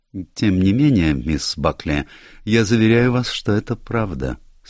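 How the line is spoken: Calm reply. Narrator (Russian): спокойно ответил Пуаро

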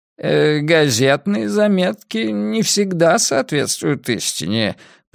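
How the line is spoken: Grumbling. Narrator (Russian): проворчал Пуаро

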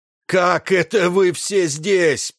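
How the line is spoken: Roaring. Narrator (Russian): проревел он

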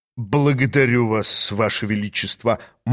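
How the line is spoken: Gloomy reply. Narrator (Russian): мрачно отозвался министр

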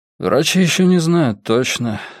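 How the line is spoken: Cautious. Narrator (Russian): осторожно начал он

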